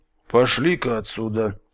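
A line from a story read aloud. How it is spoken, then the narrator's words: Quiet, bear. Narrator (Russian): тихо ответил медведь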